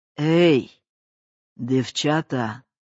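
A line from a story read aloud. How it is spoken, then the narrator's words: Woman's hoarse masculine call. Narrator (Russian): хриплым мужским голосом позвала тетка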